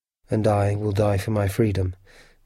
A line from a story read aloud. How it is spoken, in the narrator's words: Ned said quietly